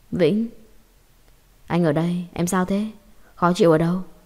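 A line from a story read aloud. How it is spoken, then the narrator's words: Trembling voice. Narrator (Vietnamese): Giọng anh run rẩy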